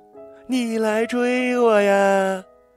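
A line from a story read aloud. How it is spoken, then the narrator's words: Shouting while running. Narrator (Chinese): 我就边跑边大叫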